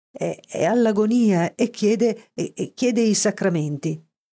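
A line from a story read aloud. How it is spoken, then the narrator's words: Stammered. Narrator (Italian): balbettò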